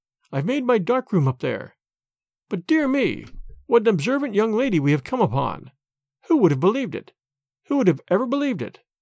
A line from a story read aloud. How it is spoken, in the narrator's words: He spoke in a jesting tone